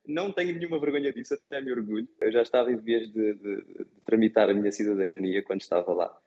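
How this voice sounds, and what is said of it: Portuguese speaker with slight Brazilian accent. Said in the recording (Portuguese): “comecei a sentir-me um pouquinho brasileiro ... até hoje não me livrei 100% do, do, do sotaque ... Já deu para perceber ... tenho uma costelinha brasileira”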